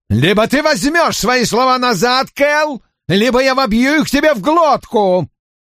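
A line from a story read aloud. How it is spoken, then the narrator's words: Yelling. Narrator (Russian): завопил он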